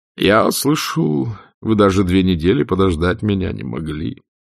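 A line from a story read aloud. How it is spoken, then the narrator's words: Remark with theatrical sigh. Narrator (Russian): заметил он и театрально вздохнул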